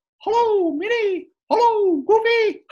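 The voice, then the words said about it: Mickey Mouse cartoon voice impression. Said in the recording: “in case you don't know who Mickey sounds like, he talks like this... my impersonation of Mickey Mouse”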